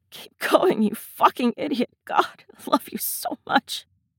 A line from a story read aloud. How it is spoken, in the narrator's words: Ed puffs out an incredulous, hoarse laugh into Steed's neck, more breath than sound, and murmurs